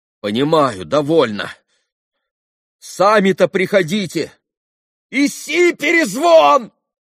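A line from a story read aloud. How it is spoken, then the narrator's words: Fierce shout. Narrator (Russian): Совсем уже свирепо прокричал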